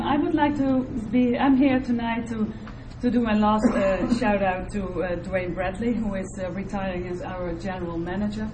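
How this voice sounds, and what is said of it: Funny foreign accent. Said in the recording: “my funny accent”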